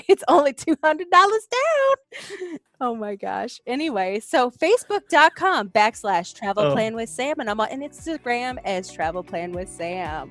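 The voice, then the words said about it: Northern Kentucky regional accent. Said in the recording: “I'm really trying to hone in my accent... She's from Northern Kentucky”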